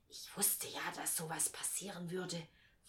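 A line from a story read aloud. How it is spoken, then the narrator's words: Whispered. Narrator (German): flüsterte mir Alice Wendlaken zu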